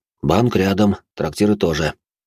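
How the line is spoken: Displeased voice. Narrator (Russian): недовольным голосом произнес он

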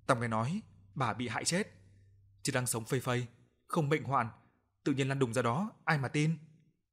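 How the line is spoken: Whispering. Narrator (Vietnamese): Bà Năm thì thào

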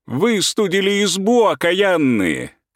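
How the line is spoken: Shouted, woman of the house. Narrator (Russian): кричала на них хозяйка

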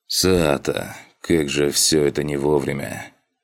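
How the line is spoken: Heavy sigh. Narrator (Russian): Тяжело вздохнул Эстадиор

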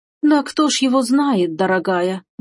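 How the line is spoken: Sad sigh. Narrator (Russian): грустно вздохнула та

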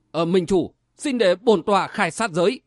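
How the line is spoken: Bursting out laughing. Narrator (Vietnamese): Khố Tị bật cười nói

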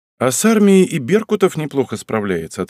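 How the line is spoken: Plain. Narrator (Russian): ответил я

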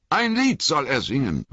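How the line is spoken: Hobbit calling out. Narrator (German): rief einer der Hobbits

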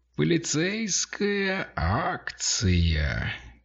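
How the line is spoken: Drawled. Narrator (Russian): протянул Мик

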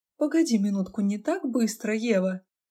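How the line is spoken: Laughing. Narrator (Russian): Я рассмеялась

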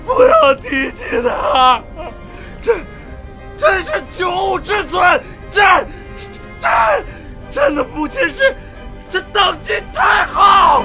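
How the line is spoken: Heavy panting, fierce. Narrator (Chinese): 李建恒粗喘着，面目狰狞

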